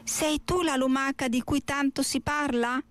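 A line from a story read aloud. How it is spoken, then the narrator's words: Plain. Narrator (Italian): disse la voce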